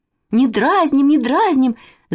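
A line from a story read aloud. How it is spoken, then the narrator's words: Offended shouting, two girls. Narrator (Russian): закричали обиженно Катя с Манечкой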